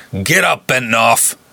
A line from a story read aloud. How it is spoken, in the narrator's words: Beef snarled